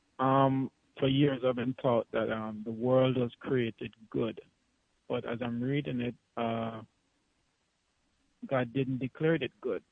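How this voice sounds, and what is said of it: Noticeable regional accent. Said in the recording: “Forgive my accent here. If you don't understand, let me repeat it.”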